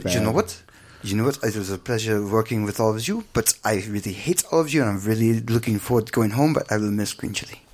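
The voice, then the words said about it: Imitated French accent. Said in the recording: “I can't do a French accent.”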